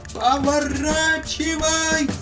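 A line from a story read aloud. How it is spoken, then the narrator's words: Shouted. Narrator (Russian): закричал царь Колбаска летчику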